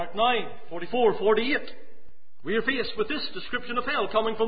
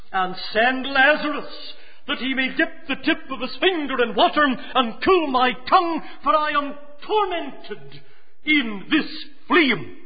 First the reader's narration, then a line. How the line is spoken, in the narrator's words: pleads